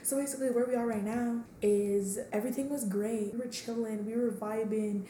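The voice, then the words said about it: Hoarse, strained voice. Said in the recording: “I'm losing my voice, y'all”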